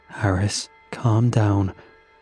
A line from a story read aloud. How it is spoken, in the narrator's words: I said, my voice shaking